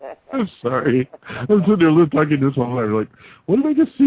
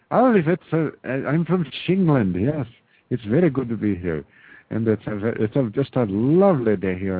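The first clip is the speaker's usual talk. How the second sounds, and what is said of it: Put-on mock English accent. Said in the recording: “What's a Shinglish accent sound like?”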